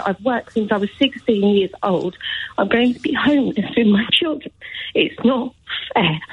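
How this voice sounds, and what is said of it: Emotional, upset voice. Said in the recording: “I'm sorry, I'm getting so emotional. ... Of course you're getting emotional.”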